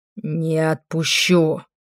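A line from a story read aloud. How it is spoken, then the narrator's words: Growled. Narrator (Russian): рычал он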